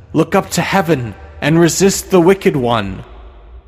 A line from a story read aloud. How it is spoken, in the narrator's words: cried the husband